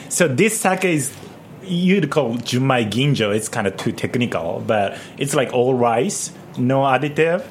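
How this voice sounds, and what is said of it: British-sounding accent. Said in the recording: “I love your accent, too. It's like BBC, the accents.”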